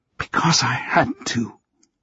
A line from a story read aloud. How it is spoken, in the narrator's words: she whispered